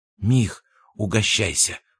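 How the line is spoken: Whisper. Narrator (Russian): прошептал Абрамов

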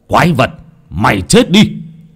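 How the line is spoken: Roar. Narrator (Vietnamese): Lão Nhiên gầm lên

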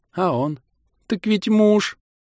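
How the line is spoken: Bitter sobbing. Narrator (Russian): Еще горше зарыдала молодая жена

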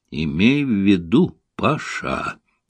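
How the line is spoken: Menacing start. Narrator (Russian): грозно начал Максимов

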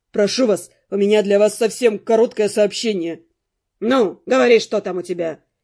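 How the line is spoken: Displeased, hiding agitation. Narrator (Russian): За недовольным тоном мэр старательно скрывал собственное душевное смятение

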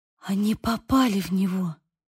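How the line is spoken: Whisper. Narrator (Russian): прошептала я

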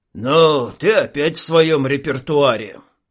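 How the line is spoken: Deep bass voice. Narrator (Russian): пробасил один из них

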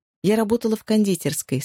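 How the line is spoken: Plain. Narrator (Russian): сказала Джози

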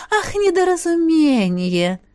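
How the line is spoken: Gentle, sweet question. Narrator (Russian): Ласково переспросила я

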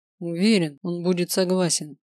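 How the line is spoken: Through gritted teeth. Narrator (Russian): сквозь зубы процедил Грайнер

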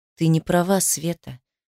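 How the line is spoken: Unexpectedly soft. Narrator (Russian): неожиданно мягко ответил ей Артур

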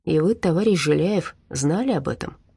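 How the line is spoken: Mumbled. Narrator (Russian): пробормотал Дима

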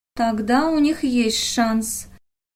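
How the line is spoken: Young woman's even voice. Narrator (Russian): ровным голосом сказала девушка

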